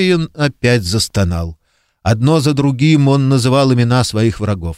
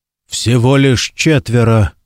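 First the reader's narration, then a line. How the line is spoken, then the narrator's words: Muttering man. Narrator (Russian): бормотал он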